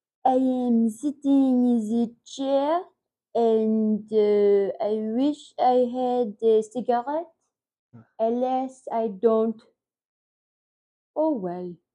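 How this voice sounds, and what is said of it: Put-on French accent. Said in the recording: “Do your French accent. ... Yours is good.”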